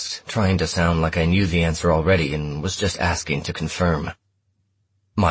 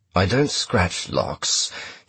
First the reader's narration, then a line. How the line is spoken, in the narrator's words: said in a sonorous voice, smooth where his sister's was rough